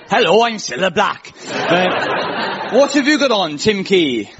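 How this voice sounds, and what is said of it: Put-on Welsh accent. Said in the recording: “I'm going to do a Scylla. That's difficult. ... That's how you do a Scouse accent ... We'll pretend Scylla's from Swansea.”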